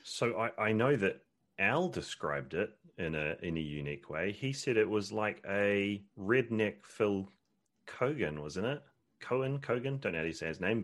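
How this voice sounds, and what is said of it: New Zealand accent with twang. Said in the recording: “I love that accent ... I'm from New Zealand originally. So that's where most of the twang comes from.”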